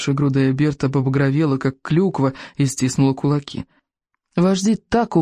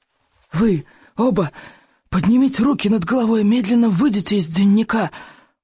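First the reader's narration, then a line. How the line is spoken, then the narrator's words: Hoarse, hissing bark. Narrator (Russian): пролаял хриплый, шипящий голос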